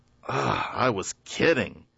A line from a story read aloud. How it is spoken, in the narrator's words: he achingly groaned